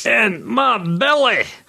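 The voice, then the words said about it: Comic Scottish character accent. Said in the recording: “offending and Scotland. It's more of my fat bastard accent.”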